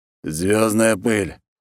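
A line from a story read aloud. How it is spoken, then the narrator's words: Wolf's snort. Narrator (Russian): хмыкнул волк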